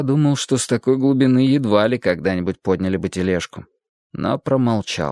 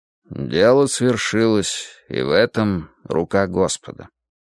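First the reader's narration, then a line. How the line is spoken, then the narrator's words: Quiet. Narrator (Russian): тихо проговорил отец Венедикт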